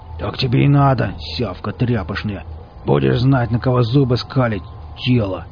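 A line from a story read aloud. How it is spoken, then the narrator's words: Growled. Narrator (Russian): прорычал Велес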